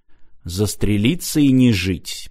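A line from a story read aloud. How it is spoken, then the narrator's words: Muttered. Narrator (Russian): пробормотал Мартин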